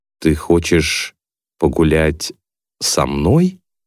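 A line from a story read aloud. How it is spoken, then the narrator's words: Slow question. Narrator (Russian): медленно спрашивает Чарли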